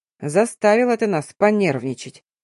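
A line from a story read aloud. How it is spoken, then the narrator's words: Grumbled. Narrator (Russian): проворчал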